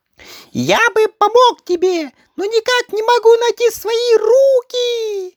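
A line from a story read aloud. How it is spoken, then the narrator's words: Exclamation. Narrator (Russian): воскликнул он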